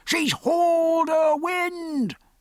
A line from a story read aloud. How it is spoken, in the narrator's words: roared the foretop